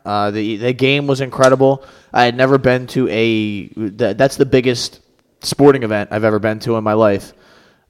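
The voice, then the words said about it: Worn-out, strained voice. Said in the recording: “You can probably tell by my voice, a little cooked”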